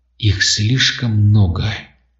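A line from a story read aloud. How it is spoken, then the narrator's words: Whisper. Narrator (Russian): прошептала Лиана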